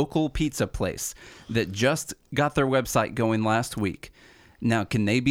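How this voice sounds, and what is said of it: Usual voice. Nothing is said of it.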